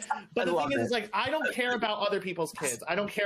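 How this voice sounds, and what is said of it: Usual voice. Nothing is said of it.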